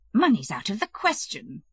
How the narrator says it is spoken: the princess and Kitty exclaimed with one voice

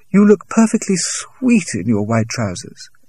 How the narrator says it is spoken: she exclaimed

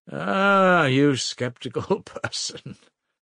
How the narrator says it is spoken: laughed Svidrigailov

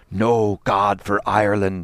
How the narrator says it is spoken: he cried

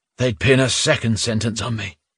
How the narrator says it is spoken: Dyrsin said with a sigh

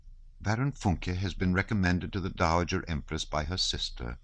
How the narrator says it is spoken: was all she said in a dry and mournful tone

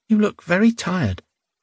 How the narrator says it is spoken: Clara said anxiously

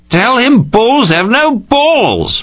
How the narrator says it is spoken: Mike shouted, very drunk, from the other end of the table

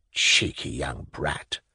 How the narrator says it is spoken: muttered Velchaninov

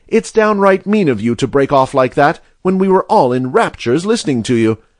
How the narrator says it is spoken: cried Mary Jane

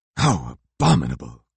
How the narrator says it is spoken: growled His Royal Highness

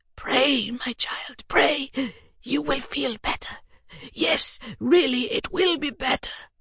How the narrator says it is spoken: he whispered

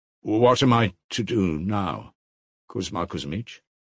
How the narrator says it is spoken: he muttered with a pale smile

